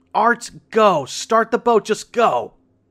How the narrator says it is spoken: My mom started yelling

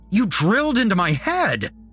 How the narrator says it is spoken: shouted

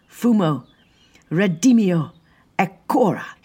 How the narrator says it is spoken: cried

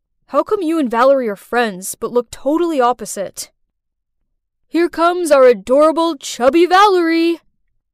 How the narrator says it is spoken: he sighed out

